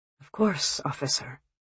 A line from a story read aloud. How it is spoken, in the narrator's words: James murmurs